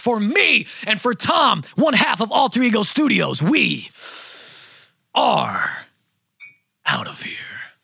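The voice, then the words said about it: Announcer voice. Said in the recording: “announcer voice”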